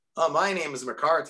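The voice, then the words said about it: Poor put-on American accent. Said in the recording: “That's a great American accent, isn't it? No, not.”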